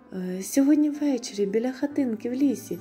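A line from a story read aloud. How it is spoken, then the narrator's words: Farewell exclamation. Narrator (Ukrainian): вигукнула на прощання Троянда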